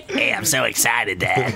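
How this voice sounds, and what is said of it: Imitates another person's voice as a kid. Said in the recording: “the best young Bill impression ... That's exactly what I sounded like.”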